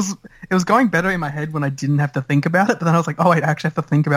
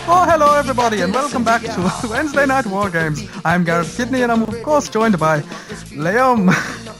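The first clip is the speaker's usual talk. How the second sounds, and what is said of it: Put-on Irish accent. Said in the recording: “the wonderful Irish accent”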